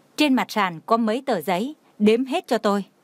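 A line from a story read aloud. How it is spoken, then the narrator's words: Cold demand. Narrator (Vietnamese): Khúc Uyển Đình lạnh lùng hỏi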